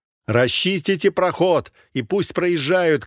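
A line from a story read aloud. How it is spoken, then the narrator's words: Shouted. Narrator (Russian): крикнул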